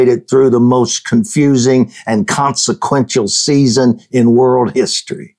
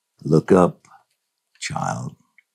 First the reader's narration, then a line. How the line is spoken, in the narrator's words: You lovingly whisper